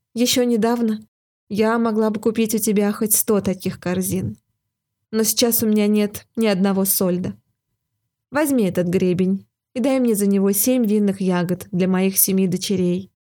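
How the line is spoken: Sighing. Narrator (Russian): ответила, вздохнув, королева

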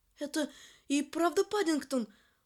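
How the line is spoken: Exclaiming. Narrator (Russian): воскликнула миссис Браун

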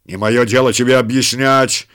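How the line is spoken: Rough reply. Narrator (Russian): грубо ответил начальник отряда

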